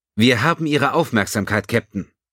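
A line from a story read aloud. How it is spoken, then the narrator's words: Called out. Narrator (German): rief Klisiewicz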